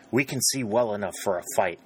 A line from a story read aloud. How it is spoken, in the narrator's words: murmured Captain Sherburne